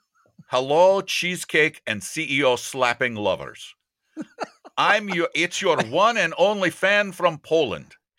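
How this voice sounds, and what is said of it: Bad put-on Eastern European accent. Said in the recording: “a bad Eastern European accent ... I'll do a little bit of Eastern Europe. Bad.”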